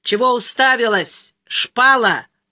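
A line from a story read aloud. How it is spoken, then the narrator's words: Loud, for all to hear. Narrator (Russian): громко, так чтобы все слышали, сказал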